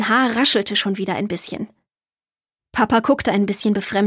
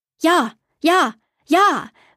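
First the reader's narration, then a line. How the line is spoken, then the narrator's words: Calling out. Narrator (German): rief Borg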